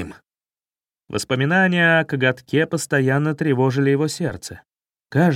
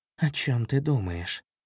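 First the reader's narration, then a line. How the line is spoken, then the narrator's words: Mother's soft question. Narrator (Russian): Мама мягко спросила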